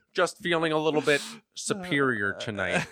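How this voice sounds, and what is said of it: Imitates another person's voice. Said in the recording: “Is your Winona Ryder sound like Dustin Hoffman? ... It's like a Silence of the Lambs serial killer.”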